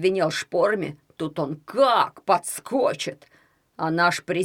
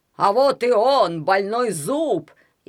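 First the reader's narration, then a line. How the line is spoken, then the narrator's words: Shout. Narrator (Russian): я крикнул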